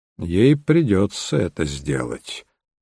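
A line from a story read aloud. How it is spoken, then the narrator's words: Grim remark. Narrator (Russian): мрачно заметил Холмс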